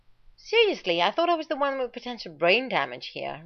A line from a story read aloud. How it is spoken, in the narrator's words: Rodney snapped